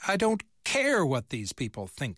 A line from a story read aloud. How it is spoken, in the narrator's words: snapped